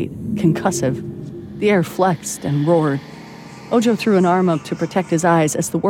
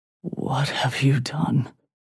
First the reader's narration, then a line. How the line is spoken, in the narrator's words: Ojo whispered